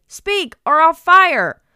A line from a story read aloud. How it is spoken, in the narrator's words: shouted